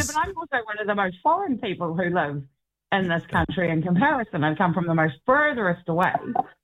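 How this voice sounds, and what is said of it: New Zealand accent. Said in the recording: “obviously you have an accent ... you're coming originally from New Zealand”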